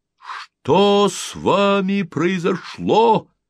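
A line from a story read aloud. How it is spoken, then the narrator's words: Crowd shouting. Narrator (Russian): крикнула толпа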